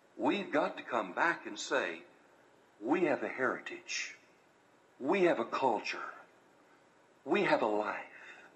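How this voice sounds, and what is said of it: American Southern drawl. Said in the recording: “you still have that southern drawl ... I have that southern drawl ... I plan on keeping my Southern drawl”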